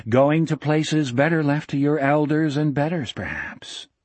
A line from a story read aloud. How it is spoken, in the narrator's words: Gardner went on in his mellow, regretful voice